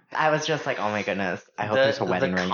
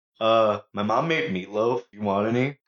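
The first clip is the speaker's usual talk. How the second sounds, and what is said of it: Put-on dopey male voice. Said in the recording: “I'm going to do my guy voice”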